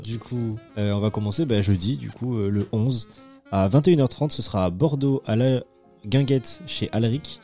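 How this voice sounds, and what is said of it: Slight southern French accent. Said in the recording (French): “Petit accent du sud.”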